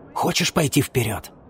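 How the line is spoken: Whisper. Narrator (Russian): прошептал он ей

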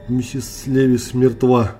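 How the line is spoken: Trembling voice. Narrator (Russian): дрожащим голосом сообщил

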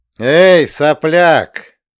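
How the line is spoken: Loud shout. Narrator (Russian): крикнул громко

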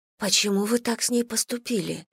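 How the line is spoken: Whisper. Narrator (Russian): прошептала Онгвин

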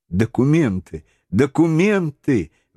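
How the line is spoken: Exclamation. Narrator (Russian): воскликнула леди Эллен

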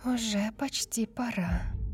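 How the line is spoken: Excited whisper. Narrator (Russian): взволнованно прошептала

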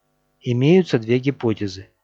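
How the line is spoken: Plain. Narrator (Russian): ответил Лорд

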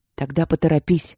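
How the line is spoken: Growl. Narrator (Russian): рыкнул Четтери

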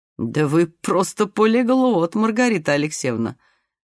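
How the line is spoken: Laughing tall man. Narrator (Russian): засмеялся высокий

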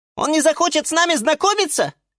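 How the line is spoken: Squeaky little voice. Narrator (Russian): пискнула фиалка Наталка

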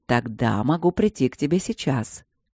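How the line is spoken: Low sultry, smiling. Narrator (Russian): сказал маг очень низким порочным тоном, но было понятно, что при этом он улыбается во весь рот

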